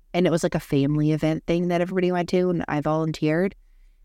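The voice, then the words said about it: Hoarse, congested, strained voice. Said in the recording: “Can you hear my voice? Yeah, I sound like shit. ... So I lost my voice ... my nose and the rest of me that sounds like shit is allergies”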